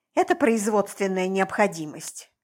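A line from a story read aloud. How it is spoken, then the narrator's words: Grumble. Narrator (Russian): буркнула я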